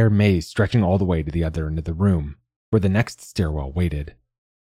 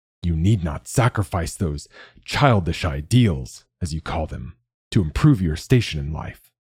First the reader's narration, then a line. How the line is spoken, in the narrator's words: Malik growled